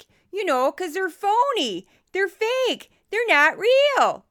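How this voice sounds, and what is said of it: Put-on Midwestern American accent. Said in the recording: “this is my voice that I do for bogus experts of the week ... that's my Midwestern accent”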